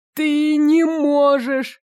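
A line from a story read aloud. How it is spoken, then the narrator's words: Mournful voice. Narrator (Russian): Шипящий скорбным голосом произнес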